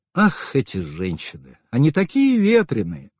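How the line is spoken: Dreamy purr. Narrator (Russian): мечтательно промурлыкал Караянец

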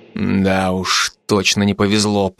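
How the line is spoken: Muttered. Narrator (Russian): пробормотал я

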